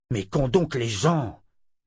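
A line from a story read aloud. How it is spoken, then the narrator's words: Grumbled. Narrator (French): grogna Richard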